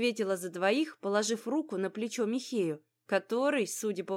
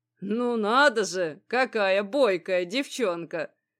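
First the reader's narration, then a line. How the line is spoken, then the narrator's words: Approving deep bass. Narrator (Russian): одобрительно пробасил кузнец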